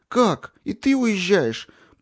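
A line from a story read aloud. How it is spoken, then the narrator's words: Tearful voice. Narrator (Russian): плачущим голосом отозвалась Женя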